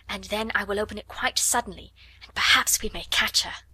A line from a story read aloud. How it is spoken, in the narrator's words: she whispered